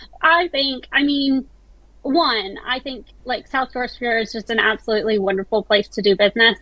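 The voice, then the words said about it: American accent. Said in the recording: “while I haven't lost my accent ... my American family thinks I'm British now, and Brits think I'm American”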